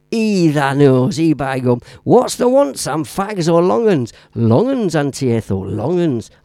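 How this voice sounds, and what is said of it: Put-on northern English accent. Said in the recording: “Love the northern accent. Very warm, welcoming, and family like.”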